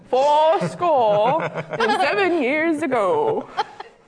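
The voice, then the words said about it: Put-on old-fashioned accent. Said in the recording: “What accent was that one? ... That was an Abby accent ... You can't tell me he didn't have that accent.”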